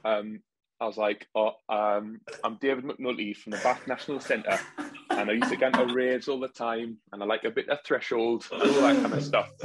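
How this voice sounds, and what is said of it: Imitated strong Geordie accent. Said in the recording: “who's got a very strong Geordie accent, which I think I've kind of got like down a little that. Bit. ... It sounds like you're on Geordie Shore.”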